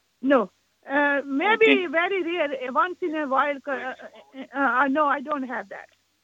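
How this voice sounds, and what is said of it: Non-native English accent. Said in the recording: “You have an accent.”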